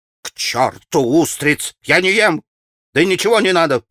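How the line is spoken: Almost angry snap. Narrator (Russian): почти злобно огрызнулся Петр Ильич

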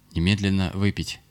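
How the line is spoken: Stern order. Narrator (Russian): хозяин строго приказал

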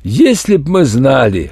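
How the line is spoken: Short laugh. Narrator (Russian): хохотнул математик Н

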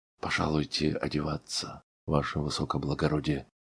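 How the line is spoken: Said quietly. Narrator (Russian): сказал он тихо

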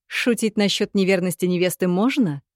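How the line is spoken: Snorting. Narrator (Russian): хмыкнул Санри

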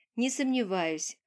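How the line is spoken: Short chuckle. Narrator (Russian): хохотнул он

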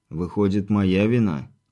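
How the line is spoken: Heavy sigh. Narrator (Russian): тяжко вздохнул Виктор

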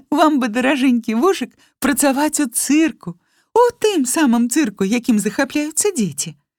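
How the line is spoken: Ringing laughter. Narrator (Belarusian): Глея зноў час ад часу звонка смяялася і гаварыла

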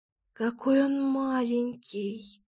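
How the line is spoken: Whispered. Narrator (Russian): зашептала Кира

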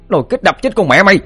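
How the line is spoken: Shouting. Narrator (Vietnamese): Nó hét lên

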